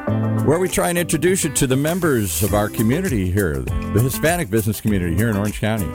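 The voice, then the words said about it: Deep radio voice. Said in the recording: “The man with the voice ... The deep voice here.”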